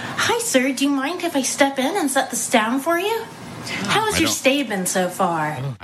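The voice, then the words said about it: High-pitched customer service voice. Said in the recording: “customer service voice ... It's too high pitched ... sounds weird”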